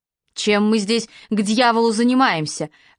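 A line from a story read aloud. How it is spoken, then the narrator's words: Barking. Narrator (Russian): рявкнул Пол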